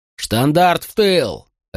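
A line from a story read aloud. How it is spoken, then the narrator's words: Barked command. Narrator (Russian): рявкнул на него Катон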